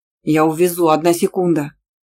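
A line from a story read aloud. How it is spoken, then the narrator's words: Growled. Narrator (Russian): рыкнул Иранда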